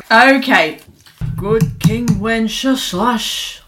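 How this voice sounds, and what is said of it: Sean Connery impression. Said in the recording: “Sean right. Connery,”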